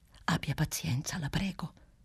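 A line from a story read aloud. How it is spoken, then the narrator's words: Whispering. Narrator (Italian): bisbigliava nel mentre Clelia Trotti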